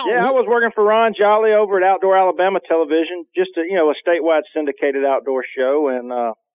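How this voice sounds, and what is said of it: Slight southern American accent. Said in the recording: “He's got a little bit of that southern accent”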